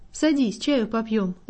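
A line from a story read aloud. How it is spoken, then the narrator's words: Gentle, affectionate. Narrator (Russian): ласково обратился он ко мне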